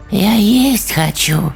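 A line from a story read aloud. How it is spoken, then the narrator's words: Hoarse flat female voice. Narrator (Russian): Совершенно безэмоционально раздался хриплый женский голос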